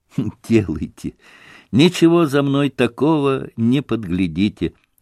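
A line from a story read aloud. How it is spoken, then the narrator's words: Laughing. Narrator (Russian): засмеялся Алеша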